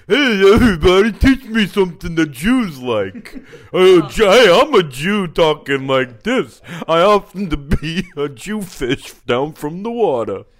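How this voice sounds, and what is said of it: Put-on dumb-person caricature voice. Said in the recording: “Did that ring Jewish to you at all? ... Obviously, you weren't trying to do a Jewish person. You were just trying to do a dumb person”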